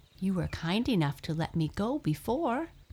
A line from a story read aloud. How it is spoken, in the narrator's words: squeaked